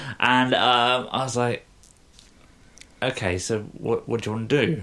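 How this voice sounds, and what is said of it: Usual voice. Nothing is said of it.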